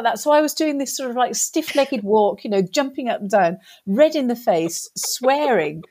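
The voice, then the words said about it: English accent. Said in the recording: “my accent was English”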